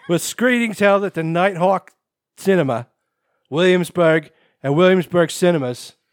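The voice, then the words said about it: Put-on Brooklyn accent. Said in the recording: “now you have to do the rest of the story in a Brooklyn accent ... I've never been to Brooklyn, so I'm kind of winging it”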